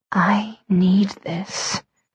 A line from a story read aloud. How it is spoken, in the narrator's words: I whispered against his lips